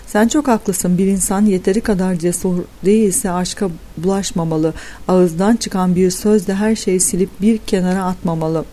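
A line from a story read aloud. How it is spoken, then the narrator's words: Thoughtful voice. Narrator (Turkish): dedim düşünceli bir sesle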